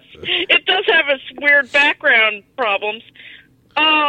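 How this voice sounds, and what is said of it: Usual voice. Nothing is said of it.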